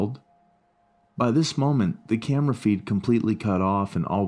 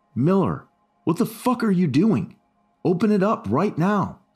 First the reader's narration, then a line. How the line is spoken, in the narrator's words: someone in the room yelled